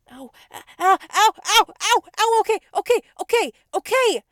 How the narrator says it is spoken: I screeched

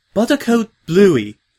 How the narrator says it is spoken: Octavia said sharply

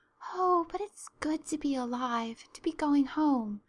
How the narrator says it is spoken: breathed Anne

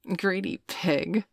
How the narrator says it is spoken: Veronica giggled

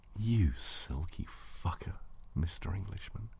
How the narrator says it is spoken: breathed

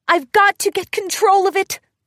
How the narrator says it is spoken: Twilight shouted

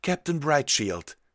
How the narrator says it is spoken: called out

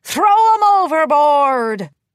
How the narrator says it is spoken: She shouted

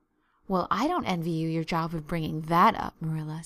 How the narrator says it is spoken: said Mrs

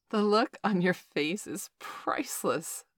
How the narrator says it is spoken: Valerie giggled

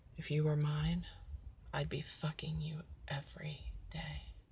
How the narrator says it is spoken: Eric whispers in my ear

